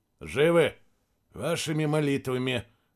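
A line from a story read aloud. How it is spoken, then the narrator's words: Grumbled. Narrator (Russian): пробурчал Сергей Макарович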